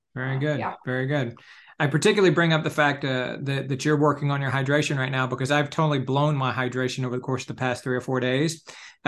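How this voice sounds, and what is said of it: Slightly hoarse voice. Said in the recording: “you can actually hear perhaps, and my voice is even a little bit hoarse right now, which only happens when I get fairly severely dehydrated”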